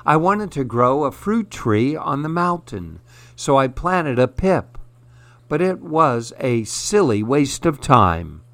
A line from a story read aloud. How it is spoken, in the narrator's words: sighed the girl